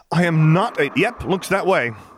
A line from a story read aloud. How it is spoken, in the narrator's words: Jason said loudly over her